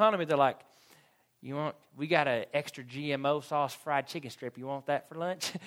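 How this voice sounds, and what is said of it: Usual voice. Nothing is said of it.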